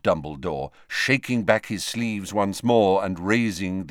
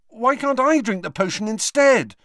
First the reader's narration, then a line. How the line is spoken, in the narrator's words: asked Harry desperately